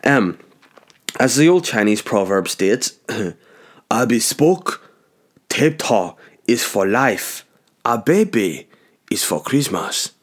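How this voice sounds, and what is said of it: Put-on Chinese accent. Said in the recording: “I should probably read it in a Chinese accent ... Everyone's funnier in a Chinese accent.”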